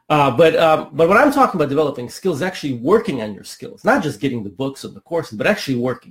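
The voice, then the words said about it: Slightly rough, not fully recovered voice. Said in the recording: “My voice is still a little uh, not 100% recovered from uh, from having a cold a few days ago.”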